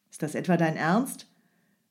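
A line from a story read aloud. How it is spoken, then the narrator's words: Angry snapping. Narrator (German): Strogoff fuhr den Mann wütend an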